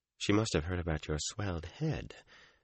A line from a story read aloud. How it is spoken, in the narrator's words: Egwene said softly